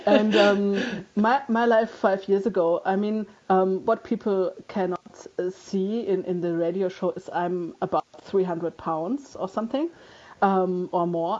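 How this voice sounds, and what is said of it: German accent. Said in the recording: “you can hear by my accent that I'm German”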